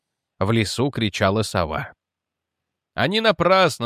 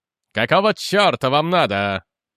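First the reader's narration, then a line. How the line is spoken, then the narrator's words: Barked. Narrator (Russian): рявкнул он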